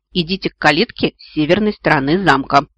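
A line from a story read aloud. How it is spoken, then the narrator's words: Gruff mutter. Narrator (Russian): буркнул стражник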